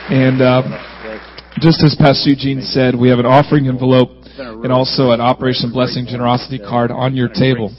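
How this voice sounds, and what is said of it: Sick, strained voice. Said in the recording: “my voice is, I'm a little under the weather”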